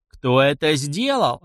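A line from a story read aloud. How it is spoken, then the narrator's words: Clan leader yelling. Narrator (Russian): орал глава клана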